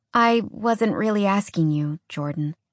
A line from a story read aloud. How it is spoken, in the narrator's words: Alex said quietly